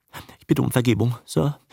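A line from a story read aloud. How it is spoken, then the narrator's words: Unhappy stammer. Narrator (German): stotterte der unglückliche Grex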